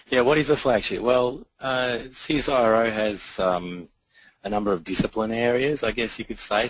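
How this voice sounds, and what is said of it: Husky, hoarse voice. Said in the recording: “I have to apologise for my voice first up. I'm a little bit unwell, but it's a good radio voice, right? ... Husky.”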